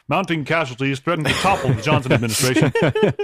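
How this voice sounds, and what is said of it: Generic old-time newsman voice. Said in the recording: “Do your best Walter Cronkite. ... generic ... newsman. ... Yeah, that's not bad.”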